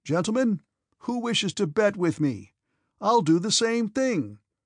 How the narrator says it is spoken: he suddenly cried

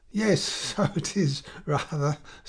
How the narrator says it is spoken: said Charles, giggling stupidly

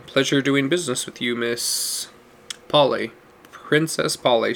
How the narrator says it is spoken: she replied

